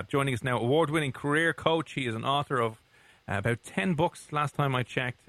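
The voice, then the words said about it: Fast Irish accent. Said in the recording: “your Irish accents ... talking far too quickly and far too Irishly”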